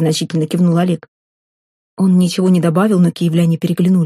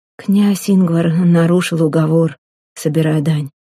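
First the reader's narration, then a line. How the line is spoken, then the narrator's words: Soft explanation. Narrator (Russian): мягко пояснил Олег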